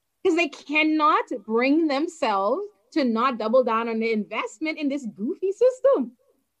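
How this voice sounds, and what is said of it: Bahamian accent. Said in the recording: “just as I have an accent, you also have one. You are from the Bahamas.”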